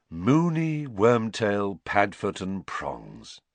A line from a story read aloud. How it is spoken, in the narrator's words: sighed George